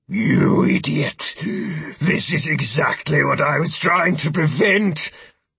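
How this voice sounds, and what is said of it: Hoarse growling voice. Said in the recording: “in a hoarse growl said”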